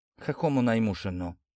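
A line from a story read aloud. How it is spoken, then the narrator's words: Low-voiced pharmacist. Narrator (Russian): вполголоса проронил аптекарь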